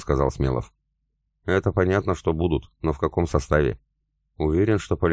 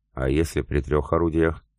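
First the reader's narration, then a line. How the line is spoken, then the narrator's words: Plain. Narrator (Russian): спросил Семенов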